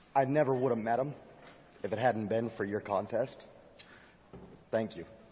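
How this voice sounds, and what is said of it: Hoarse, rough voice. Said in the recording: “my voice is a little hashed”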